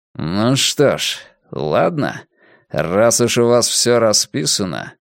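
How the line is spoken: Through clenched teeth. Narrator (Russian): Ломбард процедил сквозь зубы

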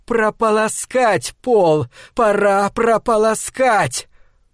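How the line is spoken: Yelling. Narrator (Russian): Он завопил

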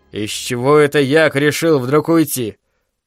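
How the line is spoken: Grumbling. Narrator (Russian): проворчал Айзек

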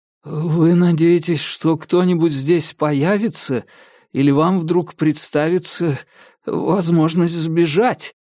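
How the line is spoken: Trembling voice. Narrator (Russian): говорю я своим новым дрожащим голосом

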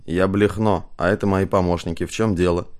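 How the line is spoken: Grumbling. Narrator (Russian): Василий, играющий роль депутата Блехно, буркнул

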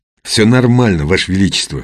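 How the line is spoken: Snorting. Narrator (Russian): хмыкнул он

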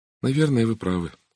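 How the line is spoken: Glum agreement. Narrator (Russian): уныло согласилась Сара

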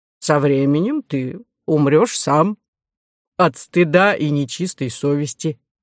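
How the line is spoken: Plain. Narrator (Russian): ответил генерал Лей

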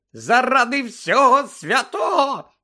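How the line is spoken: Shriek. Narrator (Ukrainian): заверещала місіс Візлі

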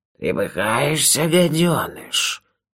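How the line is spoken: Creature hissing. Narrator (Russian): прошипело существо

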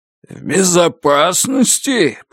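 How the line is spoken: Roaring torrent. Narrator (Russian): прорычал поток

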